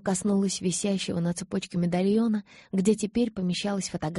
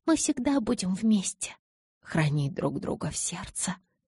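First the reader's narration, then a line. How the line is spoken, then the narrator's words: Barely audible whisper. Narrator (Russian): поправила я едва слышным шепотом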